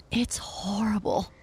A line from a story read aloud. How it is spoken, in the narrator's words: Tinker whispered